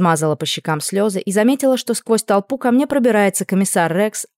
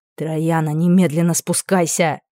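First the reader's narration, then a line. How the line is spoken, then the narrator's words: Growled. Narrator (Russian): прорычал Аделард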